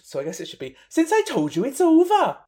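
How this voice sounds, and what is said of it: Put-on Welsh accent. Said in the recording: “Welsh ... My best Chanel impression”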